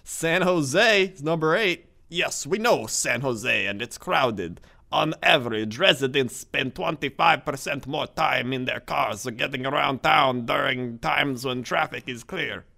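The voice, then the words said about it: Strong Bad character voice. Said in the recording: “what accent is that?... Strong Bad... I thought it was more like really bad luchador Mexican.”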